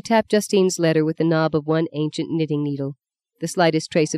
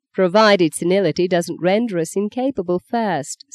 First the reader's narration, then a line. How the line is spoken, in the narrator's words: said Maggie dryly